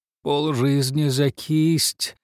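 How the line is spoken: Hoarse exclamation. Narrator (Russian): воскликнул он хриплым голосом

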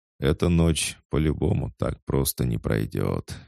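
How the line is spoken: Sighing. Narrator (Russian): вздохнул Неро

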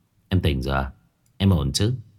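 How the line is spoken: Joyful. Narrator (Vietnamese): Phong Đình vui mừng nói

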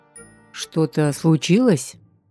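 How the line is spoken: Wary question. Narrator (Russian): Не грозно, но опасливо спросил

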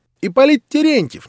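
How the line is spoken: Sudden shrill squeal. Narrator (Russian): неожиданно визгливым голосом провизжал последний

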